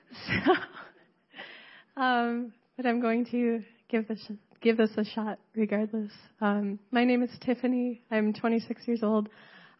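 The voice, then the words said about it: Hoarse, fading voice. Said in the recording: “I've been losing my voice over the past 2 days.”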